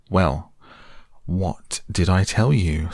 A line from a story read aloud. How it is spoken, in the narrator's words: said the Rat very crossly